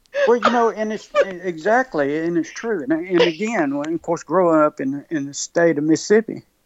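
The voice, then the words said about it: Mississippi accent. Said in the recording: “I'm sorry with my accent. We have a tendency to say Mississippi.”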